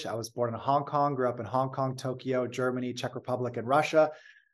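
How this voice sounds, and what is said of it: American accent. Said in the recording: “I sound American”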